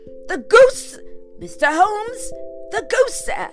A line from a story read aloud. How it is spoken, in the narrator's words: he gasped